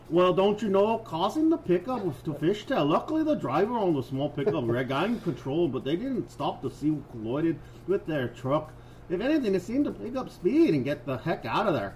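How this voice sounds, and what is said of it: Funny put-on regional accent. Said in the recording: “I'm going to do the funny accent while I do it. Wait, is it funny? Is my accent funny?”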